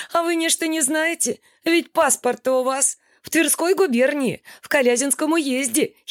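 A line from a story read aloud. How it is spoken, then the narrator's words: Giggling. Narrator (Russian): хихикала Акулина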